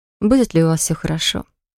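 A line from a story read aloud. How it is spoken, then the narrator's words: Quiet. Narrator (Russian): тихо произнесла Киренса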